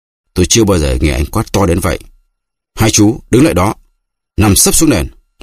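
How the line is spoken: Shout. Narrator (Vietnamese): anh Ngọc quát

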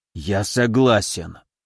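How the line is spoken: Strained, forced out. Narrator (Russian): выдавил он через силу

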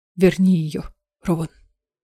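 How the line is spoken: Trembling voice. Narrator (Russian): дрогнувшим голосом сказал Эдион

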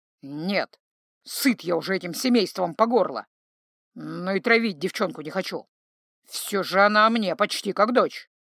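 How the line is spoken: Grumble. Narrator (Russian): немного подумав, проворчал Павоне

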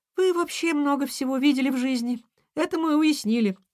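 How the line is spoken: Giggling. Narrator (Russian): хихикнула ежинка

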